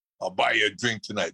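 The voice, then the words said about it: Imitates another person's voice. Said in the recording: “You do the best impression. You're better than Rich Little.”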